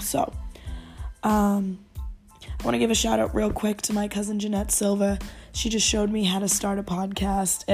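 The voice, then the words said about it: Dry, slightly rough voice. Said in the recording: “Sorry about my voice. It's a little a little dry today. ... hopefully that will clear up my voice”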